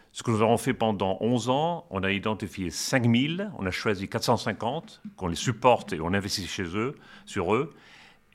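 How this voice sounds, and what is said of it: Spanish accent speaking French. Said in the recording (French): “vous avez un superbe accent euh, espagnol”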